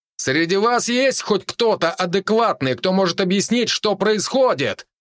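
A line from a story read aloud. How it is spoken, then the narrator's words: Loud shout. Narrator (Russian): громко крикнул я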